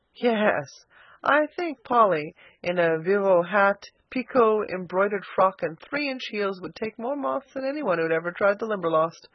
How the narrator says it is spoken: laughed Philip

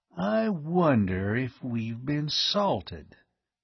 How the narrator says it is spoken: he said slowly

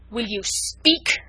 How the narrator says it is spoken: thundered Chauvelin menacingly

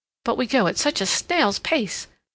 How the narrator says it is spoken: said Sally, shaking her head impatiently

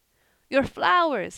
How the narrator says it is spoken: he panted

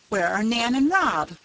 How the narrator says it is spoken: cried Mrs

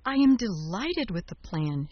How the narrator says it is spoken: cried

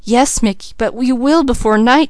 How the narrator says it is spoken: she begged

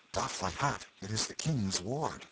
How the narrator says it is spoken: whispering one to another

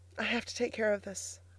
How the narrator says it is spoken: faltered Elnora, hurrying toward the door to hide the tears which were rolling down her cheeks

